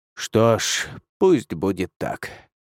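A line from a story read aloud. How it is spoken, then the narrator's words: Through gritted teeth. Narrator (Russian): процедил Худзин, скрипя зубами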